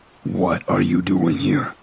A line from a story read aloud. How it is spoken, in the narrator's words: asked a rough and raspy voice